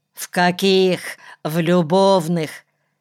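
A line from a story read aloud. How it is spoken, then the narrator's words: Furious, through gritted teeth. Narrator (Russian): процедил взбешенно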